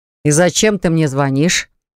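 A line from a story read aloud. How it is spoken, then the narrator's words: Gloomy voice. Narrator (Russian): Мрачным голосом ответил Артур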